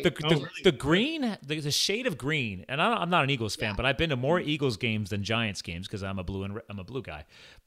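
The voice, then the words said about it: Philadelphia accent. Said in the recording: “People say I have a Philly accent.”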